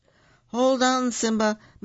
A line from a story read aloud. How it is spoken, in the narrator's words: Mufasa cried